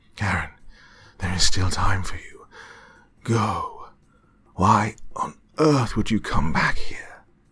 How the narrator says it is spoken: he asked with a growling voice

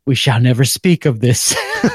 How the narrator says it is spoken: smiled, and said

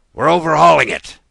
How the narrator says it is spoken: the Canadian would shout

